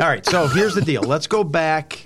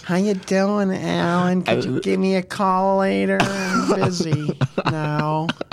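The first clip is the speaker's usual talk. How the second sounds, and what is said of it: Bad imitation of a woman's voice. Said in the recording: “That was a bad impersonation of her.”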